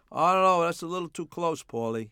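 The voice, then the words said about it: Put-on Belgian accent. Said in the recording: “in his Belgian accent”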